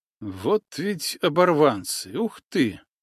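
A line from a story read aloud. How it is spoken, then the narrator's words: Quiet snort. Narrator (Russian): негромко хмыкнул Ухтымка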